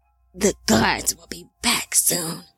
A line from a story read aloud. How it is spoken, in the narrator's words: Lamech whispered